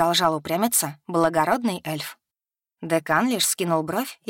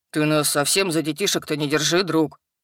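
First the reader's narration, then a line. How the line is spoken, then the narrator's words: Booming drone. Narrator (Russian): прогудел Хак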